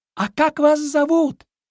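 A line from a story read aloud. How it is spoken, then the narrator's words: Shout. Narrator (Russian): Кролик крикнул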